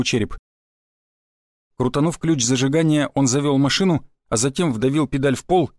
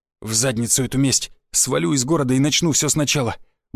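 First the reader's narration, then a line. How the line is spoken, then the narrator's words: Muttered under breath. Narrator (Russian): буркнул себе под нос Черепанов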